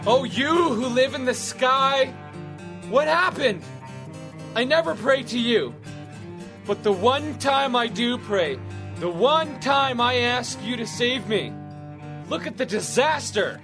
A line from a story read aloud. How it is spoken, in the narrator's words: He shouted